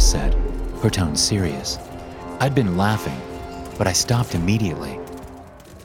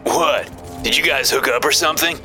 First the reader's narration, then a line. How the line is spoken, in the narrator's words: Shane said, chuckling